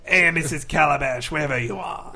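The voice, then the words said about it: Brooklyn-accented imitation of another person. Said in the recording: “In a Brooklyn accent ... guy who was always in Looney Tunes cartoons with a giant nose ... Jimmy Durante?”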